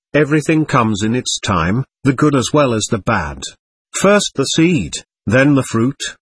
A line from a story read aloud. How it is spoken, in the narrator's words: calmly explained